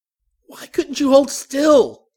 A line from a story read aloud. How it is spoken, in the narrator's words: Stephen cried